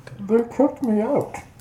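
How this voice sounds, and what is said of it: Bane impression, Sean Connery-like. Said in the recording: “That's supposed to be his fucking Bane impersonation... He sounded like what's his name? Sean Connery.”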